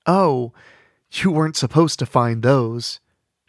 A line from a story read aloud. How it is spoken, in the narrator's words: she sighed